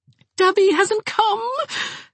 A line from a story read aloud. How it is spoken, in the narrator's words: said Jarvis wildly